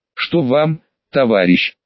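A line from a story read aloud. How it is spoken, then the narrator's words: Tired question. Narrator (Russian): устало спросил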